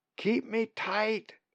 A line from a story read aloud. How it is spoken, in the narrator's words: she shouts to John